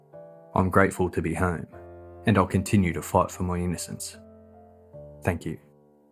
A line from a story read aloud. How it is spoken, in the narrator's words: Robert replied in a quiet, hushed tone